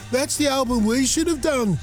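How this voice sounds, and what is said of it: Put-on English regional accent. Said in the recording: “Is that Liverpool accent? What am I doing the accent? ... That's Brummy.”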